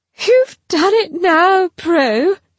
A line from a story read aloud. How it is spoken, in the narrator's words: gasped